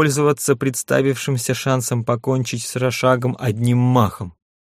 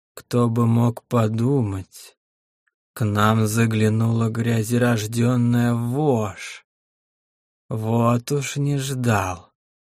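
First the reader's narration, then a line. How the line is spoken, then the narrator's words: Creaky voice filling the cave. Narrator (Russian): Проскрипел он на всю пещеру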